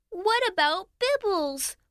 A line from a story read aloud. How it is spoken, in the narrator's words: Lana whined